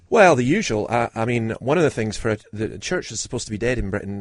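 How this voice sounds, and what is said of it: Congested, deeper than usual voice. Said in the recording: “every now and then there's a cough and my voice is somewhat deeper than usual ... You're a little bunged up. ... Yes, a wee bit.”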